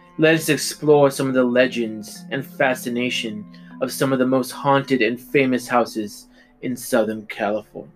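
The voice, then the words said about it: Spooky ghost host narrator voice. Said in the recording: “my best Haunted Mansion impression ... He's the ghost host.”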